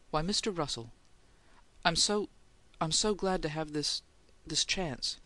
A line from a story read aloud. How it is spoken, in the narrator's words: he stammered